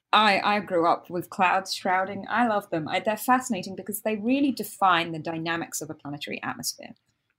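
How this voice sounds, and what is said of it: British accent. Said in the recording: “I'm British, as most of you can hear from my accent.”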